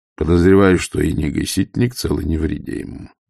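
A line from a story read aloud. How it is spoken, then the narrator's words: Grim. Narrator (Russian): мрачно сказал Ваймс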